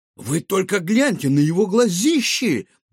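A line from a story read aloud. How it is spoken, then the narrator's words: Sudden exclamation. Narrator (Russian): воскликнул вдруг Гаврош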